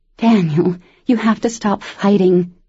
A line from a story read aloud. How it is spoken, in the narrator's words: she begged